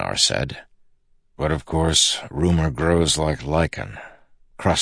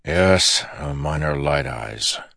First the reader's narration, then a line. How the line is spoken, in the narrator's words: Dalinar said, sighing